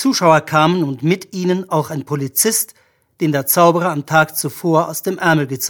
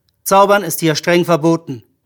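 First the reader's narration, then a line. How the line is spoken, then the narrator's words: Plain. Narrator (German): sagte der Polizist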